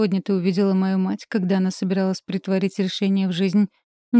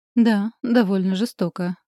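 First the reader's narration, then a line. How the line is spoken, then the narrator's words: Dry dragon voice. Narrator (Russian): сухо говорит дракон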